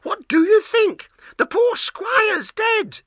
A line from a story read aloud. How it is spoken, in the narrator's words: cried